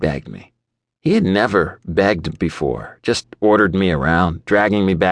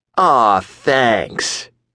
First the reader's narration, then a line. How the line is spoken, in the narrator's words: sneered